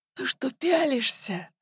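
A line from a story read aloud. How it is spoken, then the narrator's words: Hoarse voice. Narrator (Russian): раздался хриплый голос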